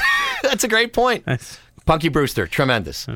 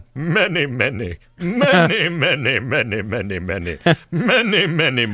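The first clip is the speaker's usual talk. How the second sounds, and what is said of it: Impression of a movie character. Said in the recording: “my Commandant Lassard impression”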